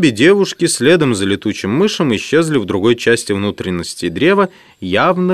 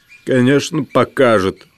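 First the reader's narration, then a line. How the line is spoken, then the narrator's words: Grumbled mutter. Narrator (Russian): буркнул мышь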